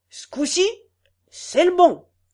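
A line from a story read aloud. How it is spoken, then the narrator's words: Joyful exclamation. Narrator (French): s'écria le gendre joyeux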